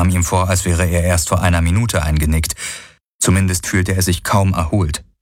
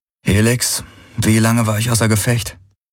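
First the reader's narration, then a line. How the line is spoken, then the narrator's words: Throat-clearing, rough question. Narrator (German): Er räusperte sich, bevor er mit rauer Stimme fragte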